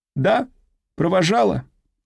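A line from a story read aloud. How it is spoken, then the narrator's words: Metallic voice. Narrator (Russian): металлическим голосом произнесла женщина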